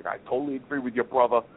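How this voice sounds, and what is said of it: Imitated New York accent. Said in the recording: “in his New York accent”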